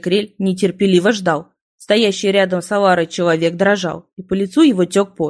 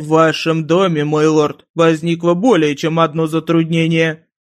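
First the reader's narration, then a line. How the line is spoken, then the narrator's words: Growled. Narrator (Russian): прорычал Ратикрель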